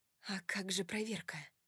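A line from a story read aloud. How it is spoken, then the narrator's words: Whispered. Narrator (Russian): прошептала я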